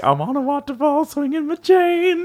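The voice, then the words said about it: Silly character voice. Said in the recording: “doing like a silly voice.”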